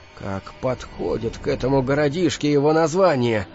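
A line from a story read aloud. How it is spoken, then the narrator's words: Quiet. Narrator (Russian): тихо проговорил Кел рядом со мной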